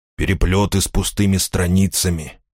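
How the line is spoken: Mutter. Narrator (Russian): пробормотал он

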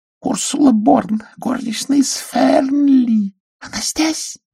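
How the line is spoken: Whisper. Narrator (Russian): прошептала сестра

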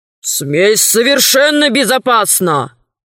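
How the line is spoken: Stern muffled shout. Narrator (Russian): Сквозь рукав Придгор строго крикнул

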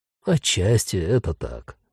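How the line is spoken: Calm agreement. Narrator (Russian): спокойно согласился блондин

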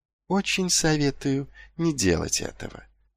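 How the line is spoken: Soft. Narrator (Russian): мягко произнес лорд Витинари

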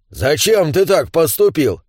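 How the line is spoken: Indignant question. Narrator (Russian): возмущенно поинтересовался первый гном

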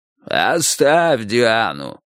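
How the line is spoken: Hoarse watchman. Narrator (Russian): прохрипел сторож

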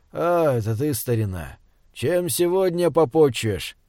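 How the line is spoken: Lazy drawl. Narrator (Russian): лениво проговорил Израиль Хаимович

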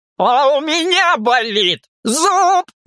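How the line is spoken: Shout. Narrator (Russian): закричал он

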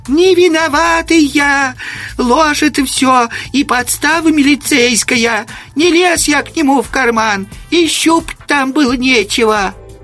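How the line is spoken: Wailed loudly. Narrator (Russian): завопил

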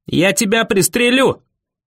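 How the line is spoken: Yelling. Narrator (Russian): завопил Дэви

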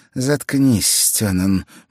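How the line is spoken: Gloomy curt retort. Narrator (Russian): мрачно бросила Николет

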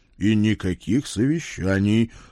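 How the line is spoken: Stern, father. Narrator (Russian): строго добавил папа

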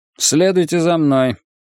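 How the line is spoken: Dry, curt. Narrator (Russian): сухо сказал он

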